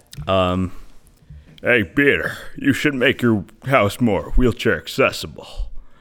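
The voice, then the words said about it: Impression of Joe. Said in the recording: “So for Joe, it's like ... that impression”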